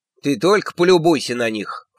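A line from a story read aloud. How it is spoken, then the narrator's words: Snorted. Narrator (Russian): фыркнула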